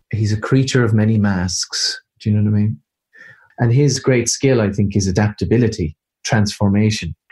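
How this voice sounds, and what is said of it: Irish accent. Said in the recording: “That Irish accent you just heard”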